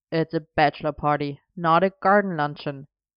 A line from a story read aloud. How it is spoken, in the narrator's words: Arthur pointed out with a snort